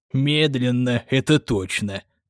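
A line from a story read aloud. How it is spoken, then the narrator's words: Old man grumbling. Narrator (Russian): пробурчал дед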